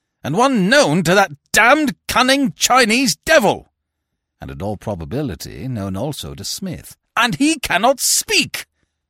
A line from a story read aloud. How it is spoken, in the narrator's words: roared Barton